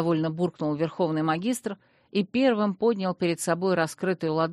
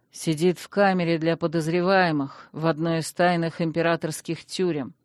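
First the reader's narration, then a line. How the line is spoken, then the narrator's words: Through gritted teeth. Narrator (Russian): процедил Танрод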